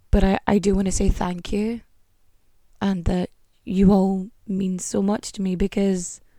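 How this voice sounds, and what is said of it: Hoarse, strained voice. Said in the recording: “I'm sorry I've been losing my voice today”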